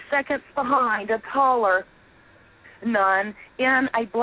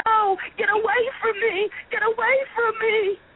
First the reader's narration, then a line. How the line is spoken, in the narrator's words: ran down the front steps, flailing her arms and screaming